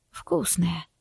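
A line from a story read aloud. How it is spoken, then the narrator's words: Sigh. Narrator (Russian): вздохнул Бардак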